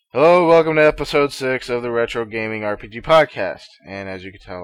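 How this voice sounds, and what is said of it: Bored, flat delivery. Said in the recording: “I sound very bored.”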